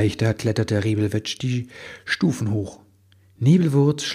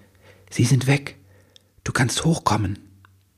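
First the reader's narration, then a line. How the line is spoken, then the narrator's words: Whisper. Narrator (German): Sie flüsterte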